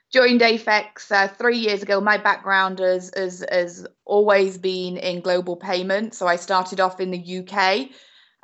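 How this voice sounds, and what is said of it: British accent. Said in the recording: “my very British accent”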